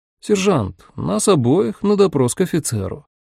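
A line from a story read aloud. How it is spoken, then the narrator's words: Calm. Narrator (Russian): де Савьер спокойно сказал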